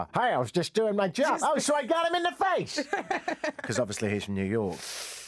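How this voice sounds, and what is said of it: Generic American accent. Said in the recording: “That's my generic ... American accent.”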